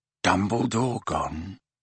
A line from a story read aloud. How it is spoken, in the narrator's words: whispered Mr